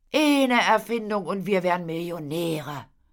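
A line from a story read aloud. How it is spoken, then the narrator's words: Sighed. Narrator (German): seufzte Paule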